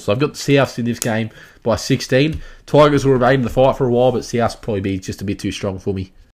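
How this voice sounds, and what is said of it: Hoarse, strained voice from sore throat. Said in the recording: “my throat's been very sore ... losing my voice. ... just the flu”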